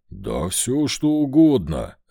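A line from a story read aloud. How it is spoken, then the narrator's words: Growl. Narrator (Russian): рыкнул Вольт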